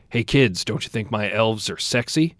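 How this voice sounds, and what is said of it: Low, gruff, creepy voice. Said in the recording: “he said in this low, gruff voice ... it was a low, gruff, super creepy voice. Super creepy voice.”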